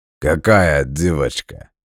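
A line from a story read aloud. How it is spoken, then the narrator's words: Short laugh. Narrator (Russian): хохотнул грузин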